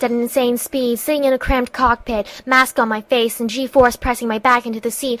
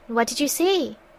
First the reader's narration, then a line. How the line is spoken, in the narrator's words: he asked in a curious voice